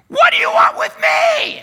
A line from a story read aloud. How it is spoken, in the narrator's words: he screams